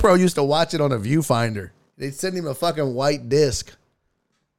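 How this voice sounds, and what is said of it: Usual voice. Nothing is said of it.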